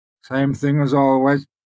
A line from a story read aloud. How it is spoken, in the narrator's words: he said